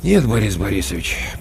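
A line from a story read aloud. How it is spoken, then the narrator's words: Said with a sigh. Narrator (Russian): почему-то вздохнув, сказал Коля Корноухов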